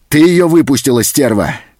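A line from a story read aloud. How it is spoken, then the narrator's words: Threatening shout. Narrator (Russian): закричал он, угрожающе шагнув к хозяйке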